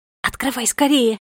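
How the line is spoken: Excited whisper. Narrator (Russian): взволнованно прошептала Фея

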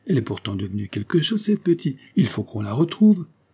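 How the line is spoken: Exasperated exclamation. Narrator (French): s'écria Servin presque exaspéré

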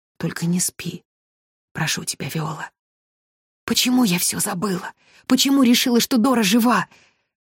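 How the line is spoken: Female whispered shout. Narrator (Russian): Шепотом прокричала

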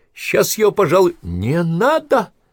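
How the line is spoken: Shrieked. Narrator (Russian): взвизгнула Прохорова

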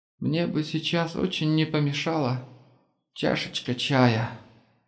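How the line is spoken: Barely audible. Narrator (Russian): еле слышно проговорил

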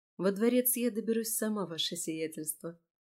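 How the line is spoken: Soft, smiling. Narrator (Russian): мягко улыбнулась Марион

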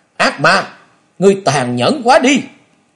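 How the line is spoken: Furious loud shout. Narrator (Vietnamese): bừng bừng nổi giận, Kế Quan quát to

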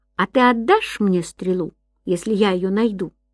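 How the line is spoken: Plain question. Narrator (Russian): спросил Гай

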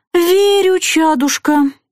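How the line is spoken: Sigh. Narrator (Russian): вздохнула Маняша

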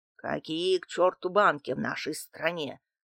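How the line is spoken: Angry grumble. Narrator (Russian): зло проворчал Дмитрий Иванович

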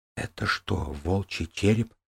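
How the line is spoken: Whisper. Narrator (Russian): прошептал Коун Джанель

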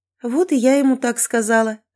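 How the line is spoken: Laughing. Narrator (Russian): рассмеялась Кэти

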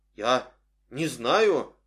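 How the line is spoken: Frightened woman's reply. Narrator (Russian): ответила женщина, испуганно

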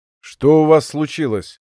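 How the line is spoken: Gloomy question. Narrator (Russian): мрачно спросил Малинин

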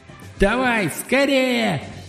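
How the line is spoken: Squealing. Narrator (Russian): взвизгнула песня

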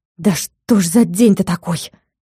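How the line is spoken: Muttering. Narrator (Russian): пробормотала та

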